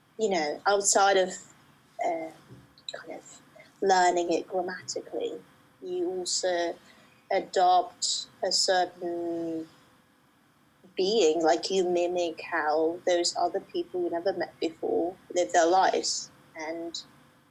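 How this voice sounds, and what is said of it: Weird kind of British accent. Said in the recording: “this weird kind of British accent”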